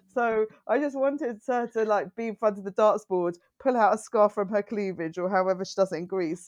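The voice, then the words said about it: Essex English accent. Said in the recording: “That pronunciation is so terrible in an Essex accent.”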